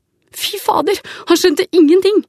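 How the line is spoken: Said with a smirk. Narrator (Norwegian): sier Stian og flirer

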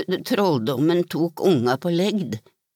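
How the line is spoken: Stammer. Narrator (Norwegian): stammet han

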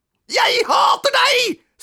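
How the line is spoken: Screaming. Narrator (Norwegian): skrek Robin

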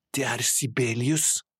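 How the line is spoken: Whispering. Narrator (Norwegian): hvisket han

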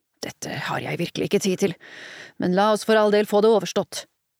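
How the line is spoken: Uncle grumbling. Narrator (Norwegian): brummet onkelen

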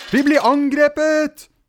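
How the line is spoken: Children shouting. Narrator (Norwegian): ropte barna

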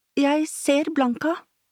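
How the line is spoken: Proclaimed in a clear voice. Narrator (Norwegian): forkynte hun med klar stemme

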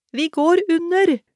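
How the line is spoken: Howl. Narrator (Norwegian): hylte hun mot Storhelgi

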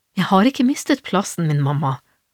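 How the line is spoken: Calm. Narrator (Norwegian): sa Lita rolig

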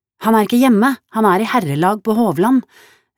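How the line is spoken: Shouting through wind. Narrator (Norwegian): ropte Kristina til ham gjennom vindstøtene

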